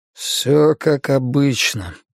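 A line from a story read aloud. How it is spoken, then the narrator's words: Muttered. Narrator (Russian): пробормотал Марсалис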